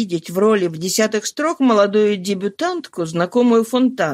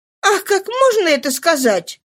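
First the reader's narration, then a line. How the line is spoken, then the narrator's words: Exclaimed. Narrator (Russian): воскликнула Нана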